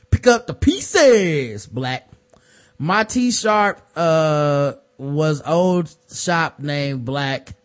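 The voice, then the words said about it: Hustle Man character voice. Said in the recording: “said in my Hustle Man voice”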